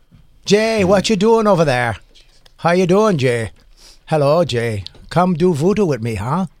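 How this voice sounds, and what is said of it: Put-on Jamaican or Irish accent. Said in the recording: “You know Jamaican and Irish, same accent? ... That's just Irish, though.”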